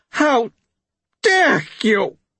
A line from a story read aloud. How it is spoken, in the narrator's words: Petrigar nearly screamed, his voice a perfectly discrediting screech